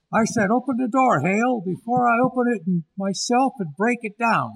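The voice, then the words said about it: Angry shouting, drunken voice. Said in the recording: “you're shouting at my door ... You're drunk ... Lower your voice.”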